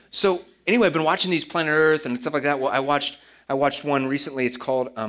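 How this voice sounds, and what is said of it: Usual voice. Nothing is said of it.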